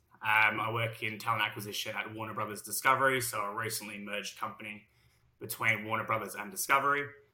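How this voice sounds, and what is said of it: Heavy Australian accent. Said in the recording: “my heavy Australian accent”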